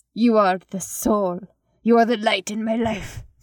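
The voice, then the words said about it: Weak Spanish-accented English voice. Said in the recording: “he has a Spanish accent, but I'm really bad at Spanish accent ... Spanish man accent speaking in English”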